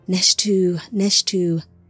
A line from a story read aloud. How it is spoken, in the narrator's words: Tsimjaza cooed in the horse's ear